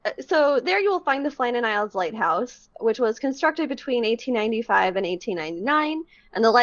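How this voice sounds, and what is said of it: Usual voice. Nothing is said of it.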